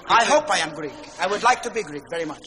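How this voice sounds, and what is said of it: Put-on Greek accent. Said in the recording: “you have a Greek accent”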